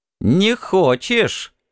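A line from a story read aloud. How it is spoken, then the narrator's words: Laughing. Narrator (Russian): рассмеялся Чен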